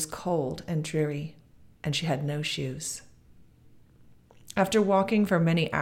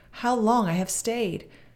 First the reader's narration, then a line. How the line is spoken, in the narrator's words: she cried